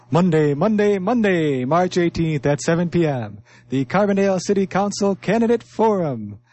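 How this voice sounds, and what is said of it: Announcer voice, not fully energetic. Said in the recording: “read this one with the announcer voice ... read it with the announcer voice ... I don't fully have the energy”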